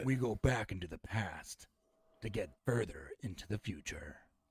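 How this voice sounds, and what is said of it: Dramatic movie trailer narrator voice. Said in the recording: “Let me do that in the trailer voice.”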